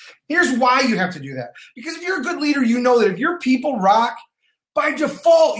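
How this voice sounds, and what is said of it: Usual voice. Nothing is said of it.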